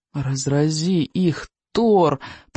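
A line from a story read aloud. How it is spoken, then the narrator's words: Moaned. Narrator (Russian): простонал рыбьенок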